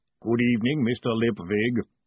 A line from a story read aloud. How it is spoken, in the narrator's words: the golem boomed